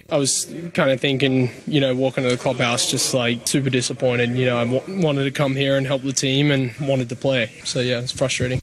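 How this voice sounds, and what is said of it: Australian accent. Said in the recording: “Yes, that's an accent you're hearing. He's Australian by birth.”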